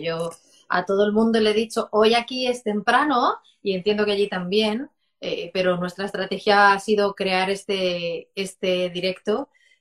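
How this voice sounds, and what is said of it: Spanish accent from Spain. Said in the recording (Spanish): “ese acento español que me encanta”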